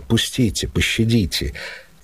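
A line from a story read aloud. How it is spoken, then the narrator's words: Whispering. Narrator (Russian): А я шепотом говорю им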